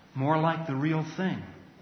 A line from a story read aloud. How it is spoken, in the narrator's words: said the Lord Diggory softly